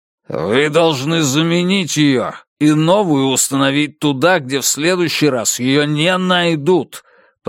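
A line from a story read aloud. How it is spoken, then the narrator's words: Billionaire growling over phone. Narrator (Russian): прорычал клиент-миллиардер в трубку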